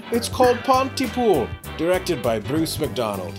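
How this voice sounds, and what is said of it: Put-on Scottish accent. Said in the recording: “Why is he Scottish? ... That was Scottish. ... That certainly sounded Scottish to me.”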